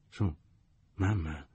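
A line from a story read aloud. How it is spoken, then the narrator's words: More uncertain voice. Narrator (Italian): ripeté con voce più incerta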